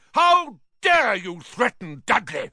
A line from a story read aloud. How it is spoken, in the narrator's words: roared Uncle Vernon